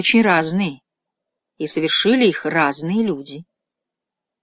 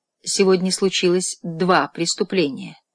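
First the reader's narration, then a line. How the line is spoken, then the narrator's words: Plain. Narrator (Russian): сказал отец Браун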